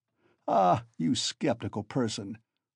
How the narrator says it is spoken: laughed Svidrigailov

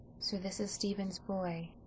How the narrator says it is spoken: she said in a low tone

